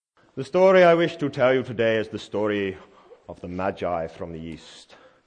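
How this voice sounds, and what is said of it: Poorly done put-on accent. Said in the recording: “Apologies for the poor accent”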